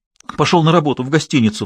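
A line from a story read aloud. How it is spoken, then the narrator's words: Sobbing. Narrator (Russian): всхлипнула она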